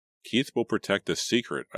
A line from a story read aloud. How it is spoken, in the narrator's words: I said, trying to keep my voice calm and steady